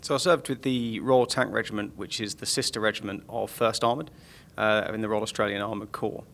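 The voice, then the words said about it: Accent unlike Australian officers. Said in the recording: “you do have a different accent from most Australian Army officers”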